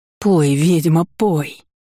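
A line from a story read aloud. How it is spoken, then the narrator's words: Entranced exclamation. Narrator (Russian): Воскликнула, словно в трансе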